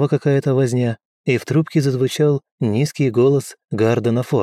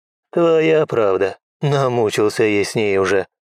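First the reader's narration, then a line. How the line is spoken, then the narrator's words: Wry snort. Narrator (Russian): хмыкнул Гарден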